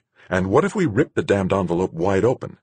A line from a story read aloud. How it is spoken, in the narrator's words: Duchamp snapped